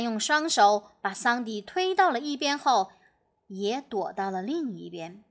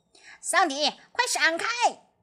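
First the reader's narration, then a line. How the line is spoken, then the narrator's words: Urgent shout. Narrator (Chinese): 呱唧连忙喊道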